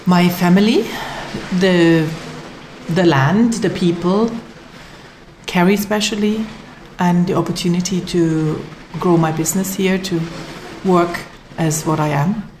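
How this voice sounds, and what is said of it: Non-Irish, German-sounding accent. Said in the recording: “it's not a Kerry accent”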